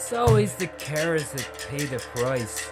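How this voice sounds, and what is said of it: Lilting Irish accent. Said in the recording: “A lilting Irish accent intoned.”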